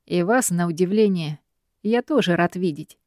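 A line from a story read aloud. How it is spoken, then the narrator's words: Sarcastic smirk. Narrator (Russian): Тот ехидно усмехается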